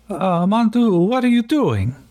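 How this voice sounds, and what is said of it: Bad Quebecois French accent, Italian-sounding. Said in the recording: “let's see how terrible I can do a Quebecian French accent ... That sounded terrible. It sounded Italian.”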